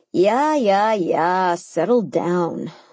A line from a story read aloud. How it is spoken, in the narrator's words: croaked